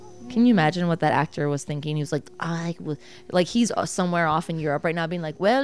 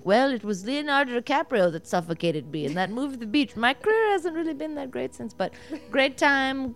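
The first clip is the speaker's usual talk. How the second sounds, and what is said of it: Put-on French accent. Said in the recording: “that was definitely like a French accent”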